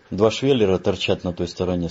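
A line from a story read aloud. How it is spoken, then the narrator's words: Plain. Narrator (Russian): сказал Леший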